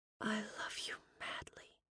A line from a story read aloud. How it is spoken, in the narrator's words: whispered